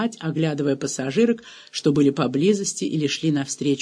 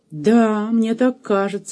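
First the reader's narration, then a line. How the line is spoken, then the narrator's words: Uncertain. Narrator (Russian): неуверенно сказала Эльза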